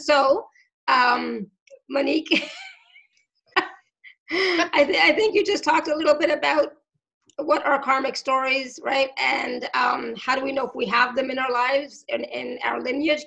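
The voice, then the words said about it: Hoarse, fading voice. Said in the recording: “my voice is going for some reason ... I don't know why my throat is suddenly gone.”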